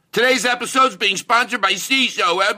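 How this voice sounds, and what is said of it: Yelling ad-read announcer voice. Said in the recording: “my impersonation of how people do the ads usually. They're yelling.”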